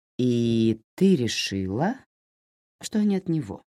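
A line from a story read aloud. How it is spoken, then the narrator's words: Plain question. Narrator (Russian): спросила Лора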